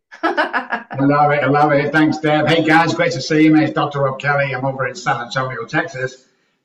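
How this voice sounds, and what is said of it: Manchester English accent. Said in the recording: “as you can tell by the accent, I'm actually from Chicago. I was joking. I'm actually from Manchester, England”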